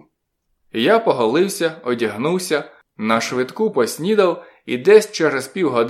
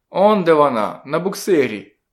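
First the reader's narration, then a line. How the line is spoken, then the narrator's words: Plain. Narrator (Ukrainian): сказав Мджі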